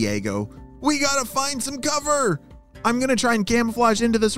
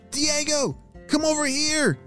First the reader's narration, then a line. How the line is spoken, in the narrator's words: shouted Karina